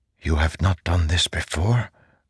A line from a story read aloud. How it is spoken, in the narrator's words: Zeth whispered